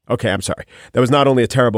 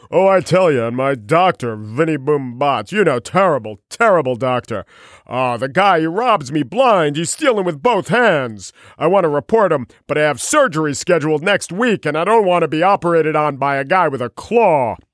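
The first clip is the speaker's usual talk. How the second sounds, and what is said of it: Poor Rodney Dangerfield impression. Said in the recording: “terrible Rodney Dangerfield impersonation, actually trending towards the Snagglepuss”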